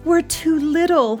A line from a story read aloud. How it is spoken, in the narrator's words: he moaned